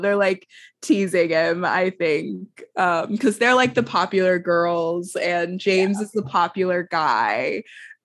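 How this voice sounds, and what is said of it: Hoarse, mostly lost voice. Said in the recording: “my voice is still gone”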